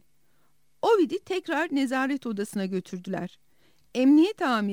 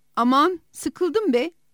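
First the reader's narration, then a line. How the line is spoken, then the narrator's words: Shouting. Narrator (Turkish): diye bağırdı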